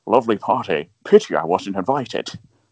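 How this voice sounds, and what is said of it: Sean Connery impression. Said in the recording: “Ace Ventura does a Sean Connery impression”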